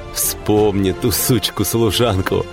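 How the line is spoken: Loud laughter. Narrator (Russian): Генри захохотал

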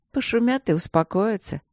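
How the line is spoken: Soft soothing mother. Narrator (Russian): мягко успокоила его мать

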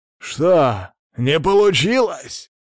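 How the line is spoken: Excited exclamation. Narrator (Russian): азартно воскликнул он

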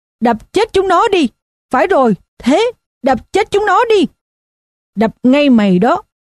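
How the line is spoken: Continuous yelling. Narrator (Vietnamese): miệng vẫn tiếp tục gào

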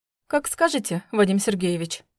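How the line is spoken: Snort. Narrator (Russian): фыркнула

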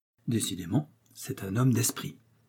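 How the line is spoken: Murmured. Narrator (French): murmura Athos

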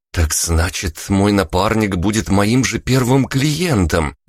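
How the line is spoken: Enthusiastic exclamation. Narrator (Russian): воодушевленно воскликнула Ника

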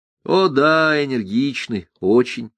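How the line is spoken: Plain. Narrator (Russian): сказал Ганс Кастерп

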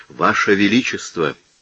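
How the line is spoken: Trembling voice. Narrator (Russian): проговорил он, наконец, дрожащим голосом

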